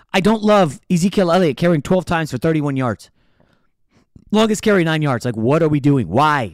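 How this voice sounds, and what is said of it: Fired up, yelling. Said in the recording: “I'm fired up. I'm yelling.”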